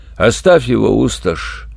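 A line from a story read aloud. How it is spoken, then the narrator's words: Hopeless dead voice. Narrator (Russian): безнадежным мертвым голосом сказал ящик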